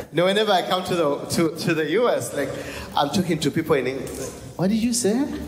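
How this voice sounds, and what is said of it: British accent. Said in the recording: “I have the British accent”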